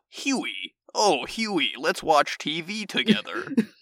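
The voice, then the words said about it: Simon Pegg's fake American accent. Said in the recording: “Simon Pegg with a cursed American accent ... they can hear the little bits and pieces of his actual accent underneath”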